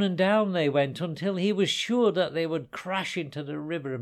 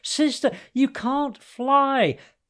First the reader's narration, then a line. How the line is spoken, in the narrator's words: He beat his wings furiously, driving himself ever and ever faster downwards, shouting after her at the top of his voice